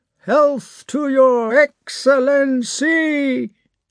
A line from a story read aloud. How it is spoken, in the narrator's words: The regiment roared